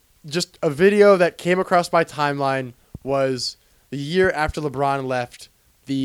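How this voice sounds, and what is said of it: Usual voice. Nothing is said of it.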